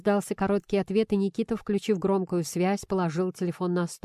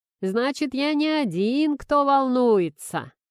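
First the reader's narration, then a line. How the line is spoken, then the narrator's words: Sarcastic drawl. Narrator (Russian): С сарказмом протянул Ларин босс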